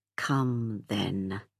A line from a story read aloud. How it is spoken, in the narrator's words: he muttered